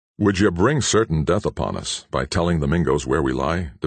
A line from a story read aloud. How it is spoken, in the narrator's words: demanded Hawkeye sternly